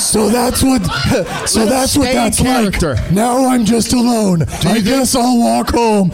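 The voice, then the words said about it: Imitated Batman character voice. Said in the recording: “his Batman voice ... do the voice ... Who are you doing the voice for”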